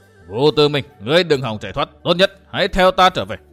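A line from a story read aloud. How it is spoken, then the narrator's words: Stern shout. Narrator (Vietnamese): Kỳ Liêm Hải quát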